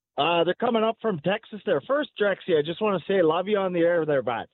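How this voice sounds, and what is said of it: Rural Canadian accent. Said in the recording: “it's an interesting accent. Is this a Texas accent, or it? Because it feels like you may be from Grimshaw, Alberta.”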